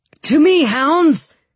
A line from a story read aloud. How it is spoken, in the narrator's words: Sturman shouted